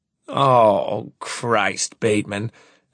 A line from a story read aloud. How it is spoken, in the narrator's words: Hamlin groans